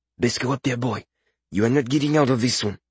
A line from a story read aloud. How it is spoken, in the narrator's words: Coledon whispered in his ear